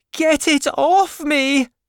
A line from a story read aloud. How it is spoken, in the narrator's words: she screamed